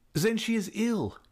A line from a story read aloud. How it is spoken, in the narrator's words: he cried